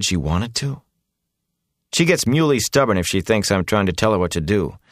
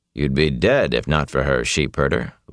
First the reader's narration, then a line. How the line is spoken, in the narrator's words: Lan said flatly